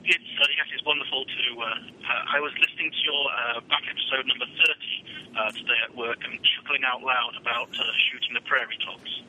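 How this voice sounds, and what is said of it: English accent. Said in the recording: “an English accent.”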